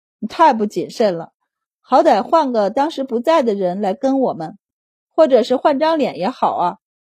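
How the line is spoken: Sighing. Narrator (Chinese): 他叹息道

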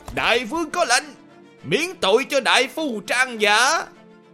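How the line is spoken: Messenger shouting loudly. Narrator (Vietnamese): sứ giả tới trước đại trướng của trung quân hét lớn

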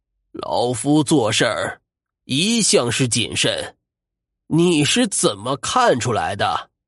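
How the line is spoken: Cold sneer. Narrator (Chinese): 欧先生冷笑道

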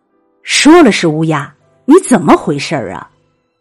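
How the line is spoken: Son shouting. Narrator (Chinese): 儿子大吼

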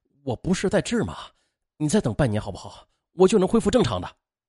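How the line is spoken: Desperate pleading. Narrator (Chinese): 王强苦苦哀求

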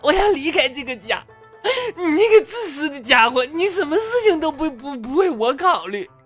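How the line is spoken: Crying woman. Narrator (Chinese): 媳妇儿哭着说

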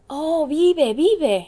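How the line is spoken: Painters exclaiming together. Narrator (Spanish): exclamaron todos los pintores

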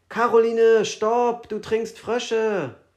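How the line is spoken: Screamed. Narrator (German): jemand schrie

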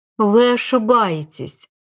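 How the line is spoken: Gentle affectionate reply. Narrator (Russian): ласково ответил Ариман

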